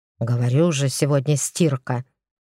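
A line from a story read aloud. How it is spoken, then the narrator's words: Grumbling mutter. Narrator (Russian): пробурчал Костриков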